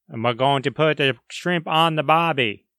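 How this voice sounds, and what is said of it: Bad put-on Australian accent. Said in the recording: “that was a horrible Australian accent.”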